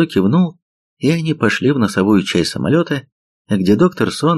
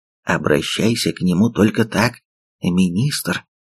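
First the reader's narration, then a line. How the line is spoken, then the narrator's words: Whispered. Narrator (Russian): шепнул товарищ Бук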